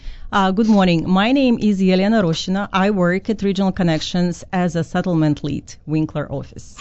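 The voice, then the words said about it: Non-native English accent. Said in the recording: “I assume by your accent that you immigrated to Canada”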